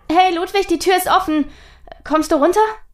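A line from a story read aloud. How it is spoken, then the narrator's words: Calling out. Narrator (German): rief nun auch Charlotte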